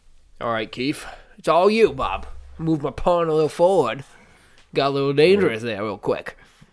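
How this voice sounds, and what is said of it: Put-on New England accent. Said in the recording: “Your main accent frightens me. your attempt at a New England accent makes me upset inside.”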